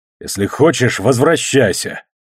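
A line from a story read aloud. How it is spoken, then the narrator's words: Angry growl. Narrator (Russian): зарычал я со злостью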